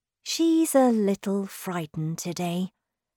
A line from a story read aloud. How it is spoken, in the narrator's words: said Moomin Mama